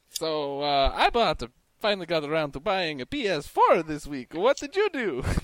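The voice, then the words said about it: Put-on Italian accent. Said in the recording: “did you also buy that accent with your PS4? Because that's crazy ... that accent from the guy in Hey Arnold ... He was the best Italian guy you've ever met”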